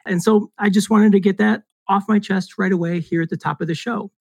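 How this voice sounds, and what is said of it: Raspy, cracking voice. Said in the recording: “you may hear in my voice ... I've picked up a little bit of a respiratory. So I do apologize for the raspy voice and if I crack a little bit there.”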